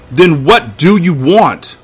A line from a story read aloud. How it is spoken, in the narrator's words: I shouted